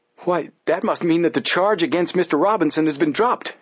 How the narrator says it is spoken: exclaimed Joe

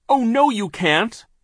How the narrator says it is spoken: Violet cried

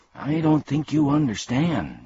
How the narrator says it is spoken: said Milo timidly

